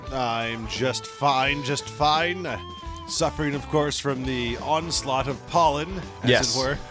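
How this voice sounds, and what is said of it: Old-school radio announcer voice. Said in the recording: “talking like an old school radio announcer. So you don't actually hear how stuffy I really am... you sound like a mess”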